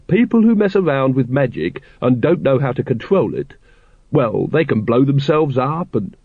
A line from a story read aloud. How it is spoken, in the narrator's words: said Once kindly